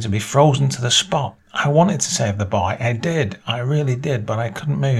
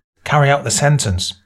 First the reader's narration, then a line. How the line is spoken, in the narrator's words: barked the general